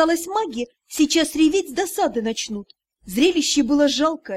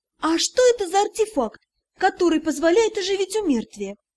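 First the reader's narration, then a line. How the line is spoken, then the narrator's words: Cheerful answer. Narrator (Russian): весело ответили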